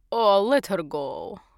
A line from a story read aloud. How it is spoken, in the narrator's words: said, laughing